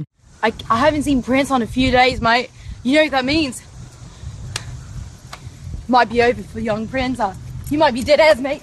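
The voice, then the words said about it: Pitch-perfect put-on Australian accent. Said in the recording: “pitch perfect Australian accent”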